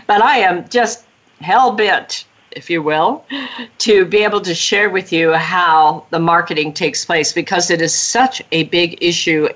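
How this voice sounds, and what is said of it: Sick voice, slightly off, breaking up. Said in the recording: “I've been down with a cold, and so my voice may sound a little bit different, and every now and then I break up”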